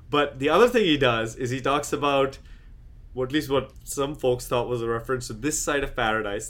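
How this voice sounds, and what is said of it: Speaks with an accent. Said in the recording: “Sometimes the accent doesn't, you know, I can't enunciate as well.”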